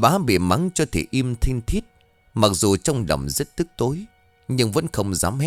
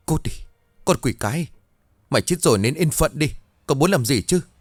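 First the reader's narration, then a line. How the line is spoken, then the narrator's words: Terrified trembling throaty voice. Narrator (Vietnamese): Bà bá ... mặt mày xanh như tàu lá, miệng run rẩy nói trong cổ họng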